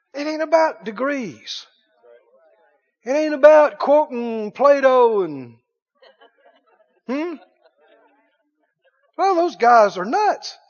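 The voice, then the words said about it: Rural Southern hillbilly accent. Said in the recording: “I'm just an old hillbilly ... Don't let the accent fool you.”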